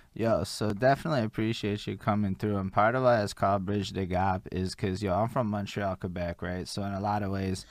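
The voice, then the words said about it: Pronounced Montreal accent. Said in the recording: “I couldn't tell by your accent ... I hella can tell ... my Montreal accent ... it's super pronounced”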